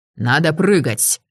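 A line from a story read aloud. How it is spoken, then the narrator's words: Bark. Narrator (Russian): рявкнул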